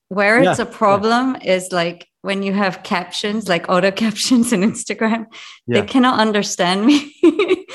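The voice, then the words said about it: Mixed Jamaican, English and North American accent. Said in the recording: “this delicious accent that you have ... my accent does represent so many places that I've lived: Jamaica, England, Montreal, New York”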